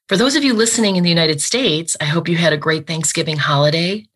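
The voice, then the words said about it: Slightly scratchy, unwell voice. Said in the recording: “I'm actually not feeling very well myself this morning, so my voice might be a bit scratchy”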